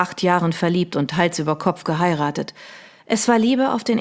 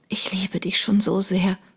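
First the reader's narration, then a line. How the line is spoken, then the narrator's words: Whisper. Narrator (German): flüsterte sie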